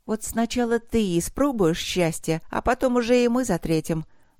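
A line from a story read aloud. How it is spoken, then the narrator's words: Gentle promise. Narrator (Russian): ласково пообещала Вилда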